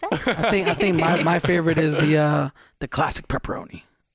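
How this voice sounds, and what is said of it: Deep gravelly Batman-style voice. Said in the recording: “My voice went out there for a second. ... He kind of do a whole different voice. ... I turned into Batman.”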